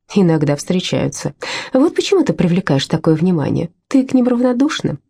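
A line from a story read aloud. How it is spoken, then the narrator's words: Laughing. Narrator (Russian): рассмеялась Лаура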